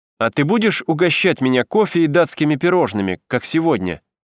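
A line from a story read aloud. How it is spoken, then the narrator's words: Plain. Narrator (Russian): сказал я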